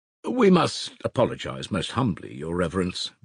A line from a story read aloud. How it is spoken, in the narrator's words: began Musav, simpering affably and speaking in a dignified and respectful tone